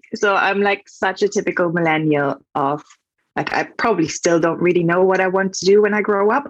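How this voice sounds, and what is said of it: German accent in English. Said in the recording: “I am from Germany, so if that's my accent.”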